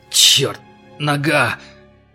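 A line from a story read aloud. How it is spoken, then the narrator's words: Groaning. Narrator (Russian): простонал Карл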